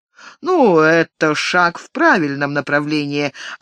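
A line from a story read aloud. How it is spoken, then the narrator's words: Patronizing tone. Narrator (Russian): ответил Лазарус покровительственным тоном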